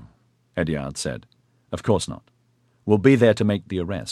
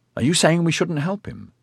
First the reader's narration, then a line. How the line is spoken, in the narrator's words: Boyd asked hotly